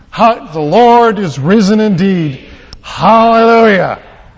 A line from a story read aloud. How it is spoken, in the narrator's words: the town thundered back